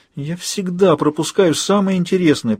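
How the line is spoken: Moaning. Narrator (Russian): простонал Джейми

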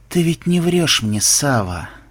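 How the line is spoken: Glum, statement-like question. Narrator (Russian): уныло произнес программист, скорее утверждая, нежели спрашивая

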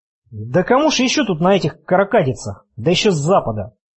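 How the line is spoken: Angry, dismissive. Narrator (Russian): Зло отмахнулась она

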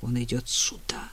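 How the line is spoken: Insistent whisper. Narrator (Russian): звучал настойчивый шепот

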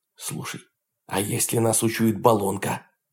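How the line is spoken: Whispered question. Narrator (Russian): шепотом спросил Дмитрий

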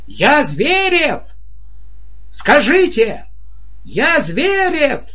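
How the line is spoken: Shouting. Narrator (Russian): он орал

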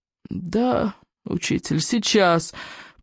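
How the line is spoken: Groaning. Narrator (Russian): простонал Икинг

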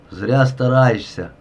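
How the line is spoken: Vicious. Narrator (Russian): злобно сказал Климченко

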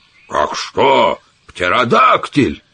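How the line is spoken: Scornful laughter. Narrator (Russian): Саммерли презрительно расхохотался

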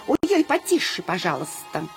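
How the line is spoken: Tiny squeaky voice. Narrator (Russian): чей-то необыкновенно тоненький голосок пропищал

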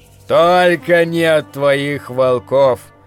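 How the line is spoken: Gloomy interruption. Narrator (Russian): мрачно перебил незнакомец

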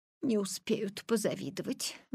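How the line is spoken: Mother sighing. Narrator (Russian): вздохнула мама

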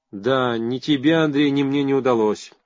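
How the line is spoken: Sad sighing. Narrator (Russian): печально вздыхая, сказала Перовская

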